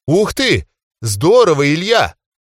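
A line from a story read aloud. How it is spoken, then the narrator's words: Delighted shout. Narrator (Russian): восторженно выкрикнула Тина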